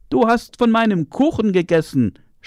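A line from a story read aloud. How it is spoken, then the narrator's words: Small child shouting at her. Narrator (German): schrie der Kleine sie an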